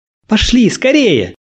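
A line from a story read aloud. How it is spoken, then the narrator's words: Shouting. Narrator (Russian): закричала она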